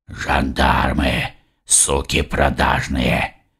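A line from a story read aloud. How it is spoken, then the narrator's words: Quiet growl. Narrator (Russian): Тихо прорычал Алонсо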